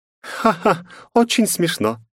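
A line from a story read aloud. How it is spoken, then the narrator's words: Laughing. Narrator (Russian): рассмеялась Джессика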